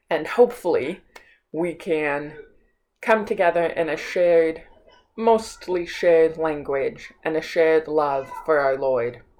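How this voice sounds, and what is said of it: Flat northern American accent. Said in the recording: “my flat American accent ... my deaf northern accent”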